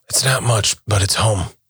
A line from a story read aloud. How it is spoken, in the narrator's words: Ronan said quietly while lying on his back